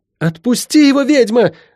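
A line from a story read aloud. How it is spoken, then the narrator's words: Shout. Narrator (Russian): закричала Лайон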